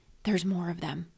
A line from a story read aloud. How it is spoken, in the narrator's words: whispered back